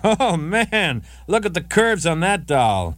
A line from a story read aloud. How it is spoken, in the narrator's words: When he saw Nadine, he shouted out